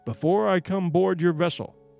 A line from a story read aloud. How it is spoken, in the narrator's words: said he